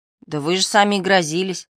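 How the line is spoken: Plain. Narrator (Russian): сказала Мари

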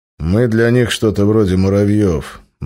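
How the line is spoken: Gloomy grimace. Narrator (Russian): мрачно скривился Березов

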